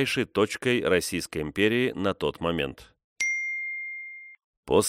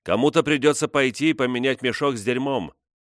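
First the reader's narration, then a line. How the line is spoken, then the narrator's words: Shout. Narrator (Russian): Эмили крикнула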